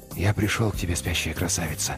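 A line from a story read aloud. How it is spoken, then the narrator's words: Whispered. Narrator (Russian): прошептал он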